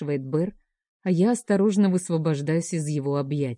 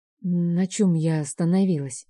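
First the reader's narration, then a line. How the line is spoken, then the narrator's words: Suddenly hoarse voice. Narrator (Russian): внезапно севшим голосом говорю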